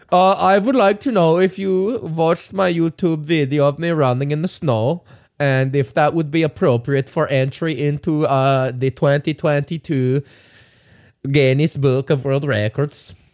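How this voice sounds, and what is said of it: Put-on Norwegian accent. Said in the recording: “Is that a Norwegian accent? ... it's a white guy accent.”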